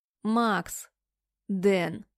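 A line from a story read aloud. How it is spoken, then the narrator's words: Cold interruption. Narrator (Russian): Прерываю холодно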